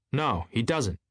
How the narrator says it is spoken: said Tom coldly

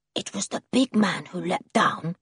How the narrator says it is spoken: whispered Julian

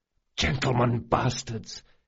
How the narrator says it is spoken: hissed Locke

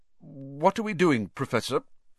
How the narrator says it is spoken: said Ron, nervously suppressing a burp

